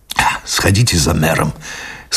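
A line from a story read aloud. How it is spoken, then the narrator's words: Strained, choked voice. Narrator (Russian): сказал он Мари Лакор сдавленным голосом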